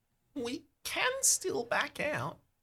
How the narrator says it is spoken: she whispers

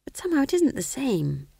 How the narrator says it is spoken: whispered Magrat wretchedly

